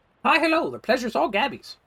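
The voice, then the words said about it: Goblin character voice. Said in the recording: “I guess this is my goblin voice.”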